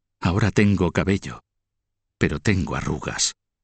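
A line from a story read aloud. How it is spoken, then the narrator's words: Widowed queen murmuring. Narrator (Spanish): murmuró la reina viuda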